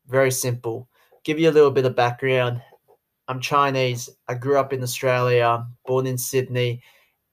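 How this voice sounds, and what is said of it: Australian accent. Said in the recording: “Asian guy with an Aussie accent”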